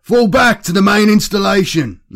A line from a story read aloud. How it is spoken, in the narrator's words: Lonus shouted over the noise of the battle